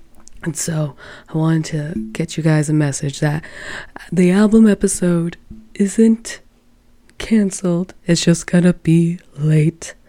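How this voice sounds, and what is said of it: Hoarse, sick voice, losing it. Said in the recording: “I bet you can tell what I'm going to say based off the sound of my voice ... it's making me cough and hack, and so I'm losing my voice”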